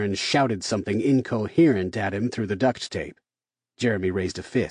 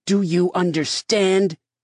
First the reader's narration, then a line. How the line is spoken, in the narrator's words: Darren continued shouting